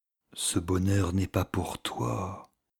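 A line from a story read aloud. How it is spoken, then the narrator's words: Inner voice whispering. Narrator (French): lui murmurait une voix intérieure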